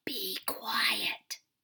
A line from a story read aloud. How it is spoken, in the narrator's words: whispered